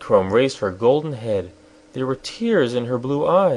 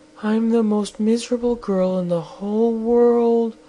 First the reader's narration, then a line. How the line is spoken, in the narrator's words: she sobbed